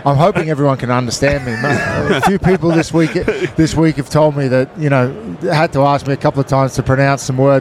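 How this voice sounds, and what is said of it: Australian accent. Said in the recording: “I'm mesmerized by the accent.”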